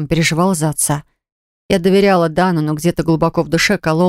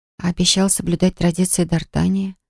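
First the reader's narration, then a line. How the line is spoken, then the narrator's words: Suddenly hoarse whisper. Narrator (Russian): прошептала я внезапно охрипшим голосом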